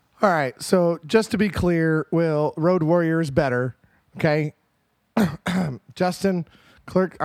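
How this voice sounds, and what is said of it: Strained, hoarse, fading voice. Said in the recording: “losing my voice. ... I'm just losing it. I'm just losing my voice. ... I'm losing it. It's gone.”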